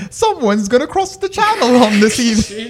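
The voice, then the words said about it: Imitates another person's voice. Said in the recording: “my Queen Elizabeth impression”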